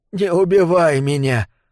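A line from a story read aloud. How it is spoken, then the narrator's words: Whimpering. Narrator (Russian): опять захныкал маг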